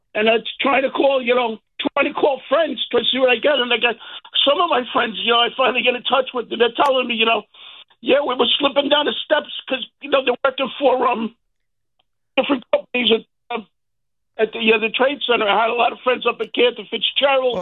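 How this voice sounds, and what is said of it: Emotional, strained voice. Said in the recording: “I can hear the emotion in your voice.”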